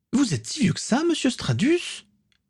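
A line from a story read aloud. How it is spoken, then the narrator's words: Exclaimed. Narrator (French): s'exclama Morgane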